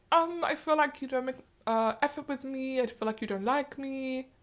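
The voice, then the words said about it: Put-on German accent. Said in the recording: “her German accent... That was actually very good... Oh, good German accent.”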